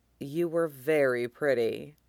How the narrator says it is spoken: he murmurs

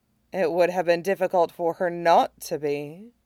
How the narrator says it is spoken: she said dryly

